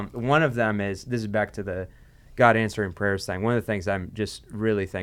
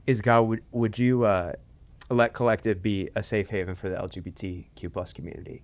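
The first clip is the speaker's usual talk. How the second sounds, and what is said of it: Emotional, choked-up voice. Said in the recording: “sorry, I'm getting emotional talking about it”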